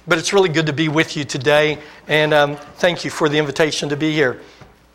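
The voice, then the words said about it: Weak, strained voice. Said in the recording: “my voice gets really weak the next day ... my voice was really weak ... if my voice is a little weak”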